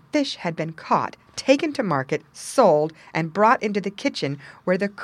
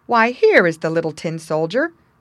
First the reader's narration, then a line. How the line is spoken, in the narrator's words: a voice exclaimed